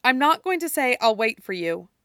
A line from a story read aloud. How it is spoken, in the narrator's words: she says